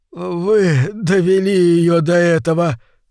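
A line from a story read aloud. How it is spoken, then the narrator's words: Moaning. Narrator (Russian): простонал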